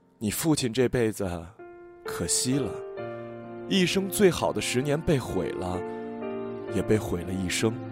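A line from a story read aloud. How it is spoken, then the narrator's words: Sighing. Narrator (Chinese): 只是一边叹气一边说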